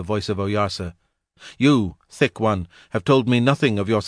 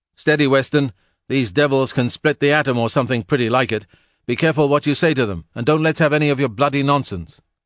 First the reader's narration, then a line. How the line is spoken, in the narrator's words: Divine, who knew his man, shouted out to Weston in English